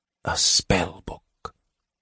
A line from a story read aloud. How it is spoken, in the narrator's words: Raistlin whispered